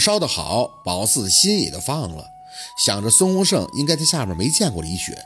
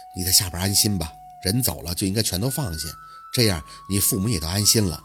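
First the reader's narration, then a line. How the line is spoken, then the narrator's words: Soft reply. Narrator (Chinese): 宝四轻声的应着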